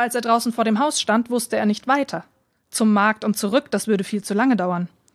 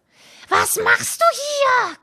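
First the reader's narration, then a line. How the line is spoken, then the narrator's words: Shrieking. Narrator (German): kreischte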